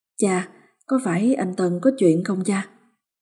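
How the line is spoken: Muttering. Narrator (Vietnamese): Miệng bà lẩm bẩm

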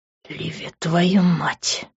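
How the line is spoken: Hoarse rasp amid kisses. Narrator (Russian): прохрипел под ее поцелуями

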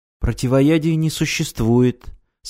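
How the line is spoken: Calm reply. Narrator (Russian): спокойно ответила Ирина

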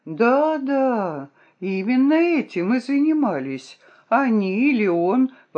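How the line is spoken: Exclaiming. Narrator (Russian): воскликнула я

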